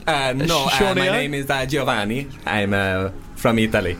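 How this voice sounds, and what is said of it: Weird put-on Italian accent. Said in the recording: “This is a weird Italian accent.”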